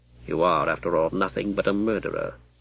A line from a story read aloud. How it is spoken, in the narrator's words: Stephen said coldly